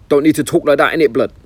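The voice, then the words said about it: Mock North London street accent. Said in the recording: “why do they have to talk like that, like North Londoners? It's a terrible accent they've got.”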